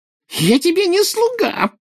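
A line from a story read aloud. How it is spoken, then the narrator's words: Squeaked. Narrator (Russian): пропищал он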